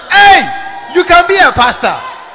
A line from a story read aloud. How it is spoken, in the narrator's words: Then shout